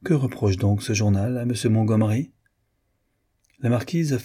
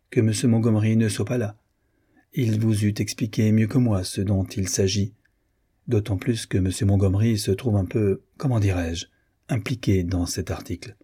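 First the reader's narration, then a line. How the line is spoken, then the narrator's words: Cold reply. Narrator (French): répondit froidement Madame de Solis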